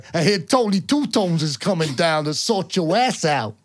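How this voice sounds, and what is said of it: Put-on New York accent. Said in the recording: “That was a really good New York accent. Anyone who's from New York's like, the hell, we don't even sound like that.”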